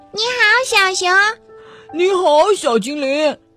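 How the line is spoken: Happy shout. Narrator (Chinese): 他开心的大叫

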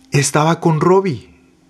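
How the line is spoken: Trembling voice. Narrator (Spanish): dijo Gloria, con voz temblorosa

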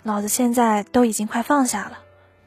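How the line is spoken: Murmuring. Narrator (Chinese): 他喃喃地说

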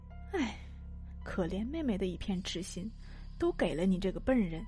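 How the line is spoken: Low murmur. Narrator (Chinese): 安摇头盯着波，喃喃低语

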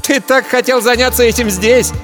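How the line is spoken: Mocking shout. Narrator (Russian): С насмешкой прокричала Гита

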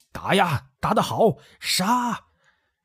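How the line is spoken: Crowd shouting in unison. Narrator (Chinese): 五千余众清兵突然齐声发喊助威

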